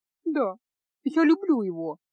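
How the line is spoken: Sobbing young woman. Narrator (Russian): проговорила девушка, всхлипывая

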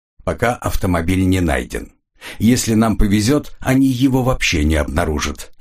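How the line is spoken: Plain. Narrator (Russian): сказал я

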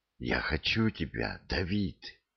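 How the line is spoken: Whisper. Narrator (Russian): шепнула она

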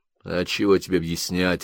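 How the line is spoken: Almost rude. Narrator (Russian): ответил почти грубо

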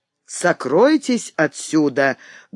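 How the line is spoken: Menacing cry. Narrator (Russian): грозно вскрикнула она

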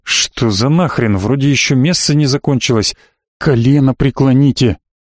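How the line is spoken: Furious whisper in ear. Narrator (Russian): яростно зашептал мне на ухо Герольд справа

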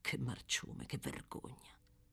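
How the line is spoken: Furious, barely lowered repetition. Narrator (Italian): continuava a ripetere furibondo, nemmeno tanto sottovoce

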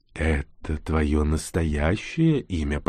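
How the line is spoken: Purred like a cat. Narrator (Russian): промурлыкал чужой, словно кошка

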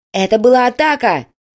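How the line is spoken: Shout. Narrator (Russian): крикнул другой оператор

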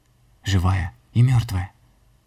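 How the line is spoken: Boy's breathless exhale. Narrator (Russian): Мальчик выдохнул

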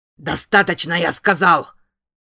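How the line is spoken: Barked. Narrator (Russian): рявкнул Дули

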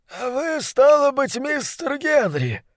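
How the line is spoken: Husky drunkard's voice. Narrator (Russian): ответил он сиплым, пропитым голосом

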